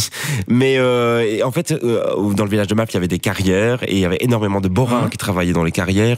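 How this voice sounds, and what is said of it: Belgian Hainaut accent, eastern variety. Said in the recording (French): “À entendre ton accent, j'imaginais que tu étais originaire plutôt du Borinage, de la région de Mons. ... Hattin, on a plusieurs accents. L'accent de l'Est et l'accent de l'Ouest. Et moi, j'ai l'accent de l'Est.”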